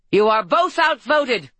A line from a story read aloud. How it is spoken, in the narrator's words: Harper cried